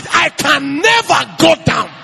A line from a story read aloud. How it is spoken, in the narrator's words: Shout